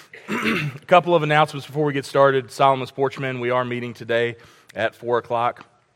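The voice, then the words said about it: Raspy, slightly sick-sounding voice. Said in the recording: “I've been a little under the weather the last few days, so if I sound a little bit more raspy this morning”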